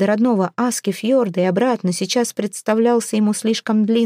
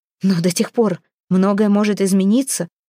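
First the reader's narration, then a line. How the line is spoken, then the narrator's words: Impatient exclamation. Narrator (Russian): нетерпеливо воскликнул Хродмар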